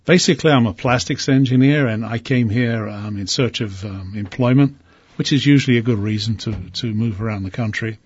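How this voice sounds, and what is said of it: Non-local accent. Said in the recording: “Obviously, we can tell from your accent that, as you always tell us, you're not from around here. ... People keep telling me I have an accent.”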